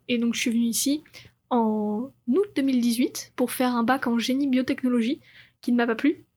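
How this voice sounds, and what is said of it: French-from-France accent. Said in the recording (French): “comme vous pouvez l'entendre à mon accent, je suis française”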